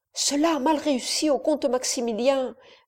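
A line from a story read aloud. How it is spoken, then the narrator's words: Old woman murmuring. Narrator (French): murmura la vieille femme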